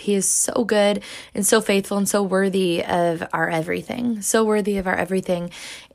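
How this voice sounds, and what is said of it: Slightly off, sick-sounding voice. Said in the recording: “my voice sounds a little bit off, and that is simply because I have been sick for a little over a week ... still feeling a little bit weak”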